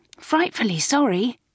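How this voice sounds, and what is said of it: Meek, apologetic voice. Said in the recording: “in a meek voice.”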